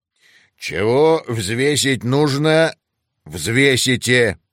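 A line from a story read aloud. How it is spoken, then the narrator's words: Growling dragon. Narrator (Russian): рыкнул дракон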